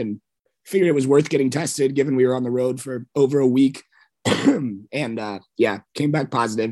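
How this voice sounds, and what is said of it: Rough, sore-throated voice. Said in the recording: “My voice sounds kind of crappy here, but which is new this morning... sore throat, as you can tell”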